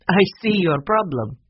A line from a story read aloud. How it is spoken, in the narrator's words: said with a laugh